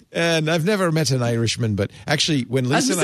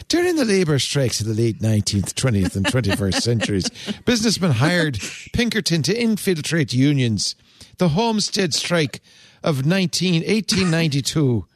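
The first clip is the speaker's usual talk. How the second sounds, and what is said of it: Exaggerated put-on Irish accent. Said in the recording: “Now do Irish. ... That's amazing. That's my favorite accent. ... It's a combination of the Lucky Charms and Leprechaun. ... And the Irish Spring.”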